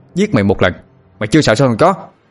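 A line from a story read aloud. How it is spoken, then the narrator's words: Shout. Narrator (Vietnamese): tôi liền quát lên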